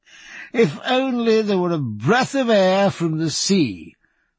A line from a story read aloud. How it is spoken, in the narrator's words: said Canning with his deep belly laugh